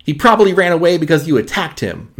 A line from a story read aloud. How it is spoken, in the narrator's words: Max yelled at May